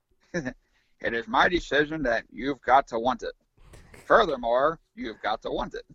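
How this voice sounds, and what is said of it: Impression of Jack Tunney. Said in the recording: “good impression of Jack Tunney”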